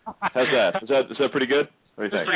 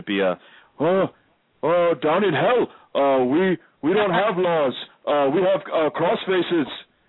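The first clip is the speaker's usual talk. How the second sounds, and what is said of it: Imitates another person's voice. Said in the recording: “my best Crippler impression”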